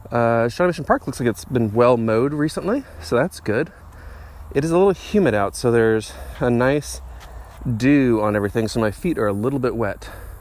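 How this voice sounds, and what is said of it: Slightly out of breath. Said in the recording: “I'm a little out of breath. I've been hiking here as I'm talking.”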